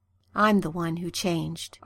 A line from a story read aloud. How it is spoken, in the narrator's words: Arthur said softly, his lips brushing Merlin's as he spoke